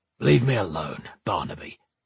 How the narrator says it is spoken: he growled

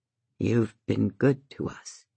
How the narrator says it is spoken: he says, his voice a broken whisper

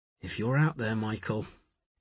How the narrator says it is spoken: he muttered

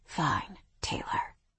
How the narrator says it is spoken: he whispered

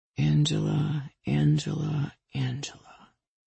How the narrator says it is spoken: he murmured

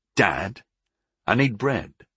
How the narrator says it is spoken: I said

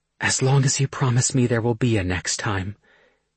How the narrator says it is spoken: she tells me breathlessly

